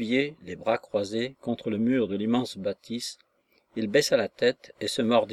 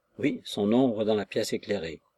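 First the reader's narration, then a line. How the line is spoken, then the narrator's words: Disdainful tone. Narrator (French): fit Nostromo d'un ton dédaigneux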